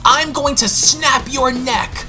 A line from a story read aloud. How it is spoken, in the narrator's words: Vegeta went on to shout